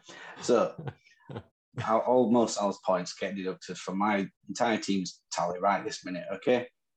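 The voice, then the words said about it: Northern English accent. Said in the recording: “In my Northern accent”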